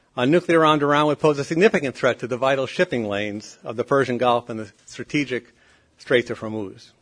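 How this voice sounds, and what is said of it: Rhode Island accent. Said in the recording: “my Rhode Island accent gets in the way once in a while”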